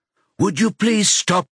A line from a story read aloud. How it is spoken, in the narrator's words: Margot says in a sharper tone of voice